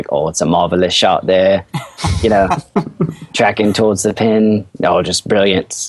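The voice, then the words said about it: Put-on British announcer accent. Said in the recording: “the British announcers ... my accent is terrible ... it's actually all right ... it's much better”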